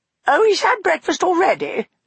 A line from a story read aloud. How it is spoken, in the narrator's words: said Eleanor sharply